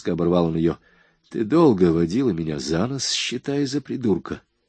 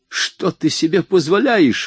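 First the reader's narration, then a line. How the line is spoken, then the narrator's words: Indignant cry. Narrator (Russian): вне себя от возмущения вскрикнула она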